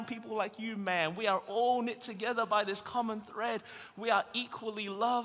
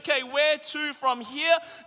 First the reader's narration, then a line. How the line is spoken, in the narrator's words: Jesus says loudly and clearly